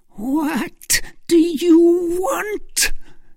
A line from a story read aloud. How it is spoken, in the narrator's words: screamed Milady